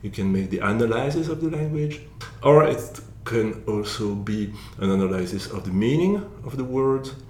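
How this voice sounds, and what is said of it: French accent in English. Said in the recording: “you can be critical about my accent, because I don't speak English very well, so you say, oh, there is that French accent, it's horrible”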